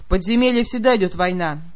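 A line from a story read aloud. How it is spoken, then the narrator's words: Gloomy. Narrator (Russian): мрачно подтвердила она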